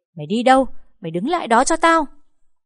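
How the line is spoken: Mother screaming from behind. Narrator (Vietnamese): Mẹ tôi ở phía sau gào lên

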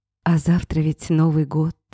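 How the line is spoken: Sighing. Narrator (Russian): вздохнула она

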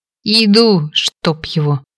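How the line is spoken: Angry grumbling. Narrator (Russian): сердито заворчала

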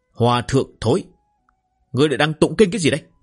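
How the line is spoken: Roar. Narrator (Vietnamese): một tiếng gầm rú

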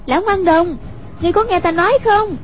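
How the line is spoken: Calling out. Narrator (Vietnamese): Hoàng Dung kêu lên

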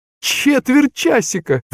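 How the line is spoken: Shrieked. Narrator (Russian): взвизгнул Моисей Моисеевич

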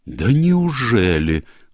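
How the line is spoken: Exclaim. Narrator (Russian): воскликнула миссис Оливер

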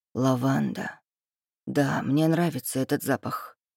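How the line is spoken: Mutter. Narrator (Russian): пробормотал Рейв

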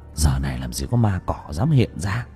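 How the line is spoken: Old man muttering. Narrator (Vietnamese): Ông Tư lẩm bẩm

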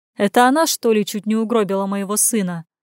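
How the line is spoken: Snort. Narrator (Russian): хмыкнул

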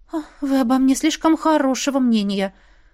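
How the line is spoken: Anxious sigh. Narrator (Russian): вздохнула я, боясь, что у меня ничего не выйдет

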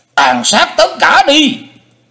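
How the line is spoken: Shrill ghostly voice. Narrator (Vietnamese): Hải Ma giáo chủ giọng the thé như ma hồn

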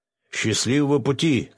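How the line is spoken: Shouting. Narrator (Russian): крикнул он

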